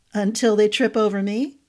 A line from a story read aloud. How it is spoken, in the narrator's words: Horace chuckled